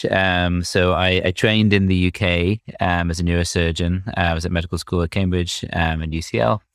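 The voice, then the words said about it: British English accent. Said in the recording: “you could probably tell from my accent that I'm British”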